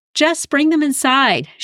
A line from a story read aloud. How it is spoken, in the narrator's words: yelled over her shoulder as she ran